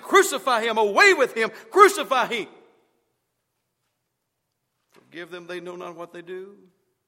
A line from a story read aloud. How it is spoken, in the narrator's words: those who were there shouting